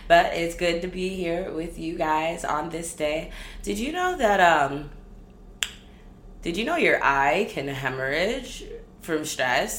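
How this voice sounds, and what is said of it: Tired-sounding voice. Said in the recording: “I am so tired. That's probably why I sound tired”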